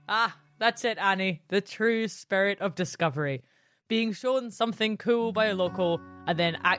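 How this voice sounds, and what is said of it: Usual voice. Nothing is said of it.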